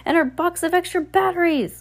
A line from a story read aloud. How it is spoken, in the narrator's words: Hector cried